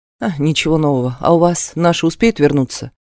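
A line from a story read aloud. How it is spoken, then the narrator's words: Sighing. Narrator (Russian): Свифт вздохнул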